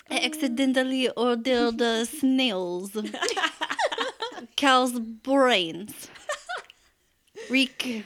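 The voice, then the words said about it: Bad put-on French accent. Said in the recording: “I sound like trash ... French accent”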